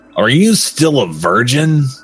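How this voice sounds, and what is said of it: Evil-sounding character voice. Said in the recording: “said evilly ... that's my best Artemis impression, so if it's not good”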